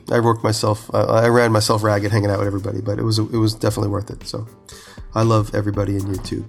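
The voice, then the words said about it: Nasal, congested voice. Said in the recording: “I have a cold, so I'm sorry. I sound all nasally all day. So, because I'm really congested.”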